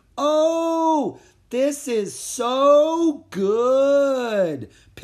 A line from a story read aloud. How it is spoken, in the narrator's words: Pip shouted as loudly as he could